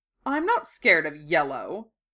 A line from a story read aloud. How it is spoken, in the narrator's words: Draco said haughtily